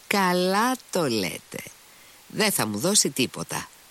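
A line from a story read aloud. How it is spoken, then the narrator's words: Laughing. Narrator (Greek): γέλασε ο Μήτρη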